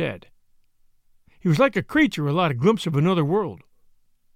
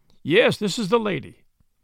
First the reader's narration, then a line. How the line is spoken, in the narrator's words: answered Potter